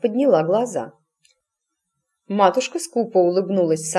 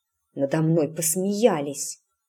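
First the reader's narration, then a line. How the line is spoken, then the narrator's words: Muttered. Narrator (Russian): пробормотала Эск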